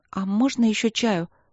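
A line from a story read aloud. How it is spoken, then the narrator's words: Timid request. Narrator (Russian): попросила она робко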